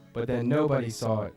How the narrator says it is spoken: she said

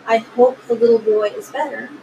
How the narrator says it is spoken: calmly and politely saying

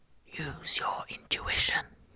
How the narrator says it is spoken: he whispered

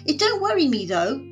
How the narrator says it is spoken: added brightly

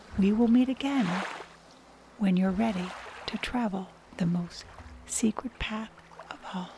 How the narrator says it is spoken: whispers

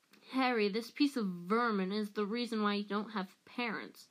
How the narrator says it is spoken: Black snarled

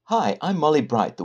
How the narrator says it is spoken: the woman said, too brightly

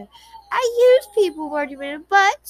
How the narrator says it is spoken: she added brightly

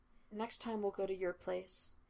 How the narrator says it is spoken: he said quietly

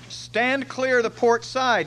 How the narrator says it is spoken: hollered

